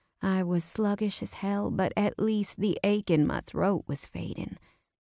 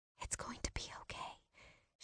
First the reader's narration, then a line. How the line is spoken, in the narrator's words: whispered